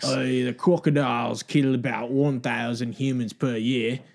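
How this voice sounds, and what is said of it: Put-on New Zealand accent. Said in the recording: “You have to do that in a New Zealand accent”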